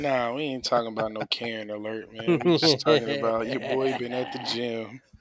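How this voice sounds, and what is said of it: Worn-out voice from yelling. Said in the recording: “Forgive my voice. I've been yelling at other people's kids”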